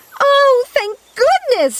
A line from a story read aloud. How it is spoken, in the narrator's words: she shouted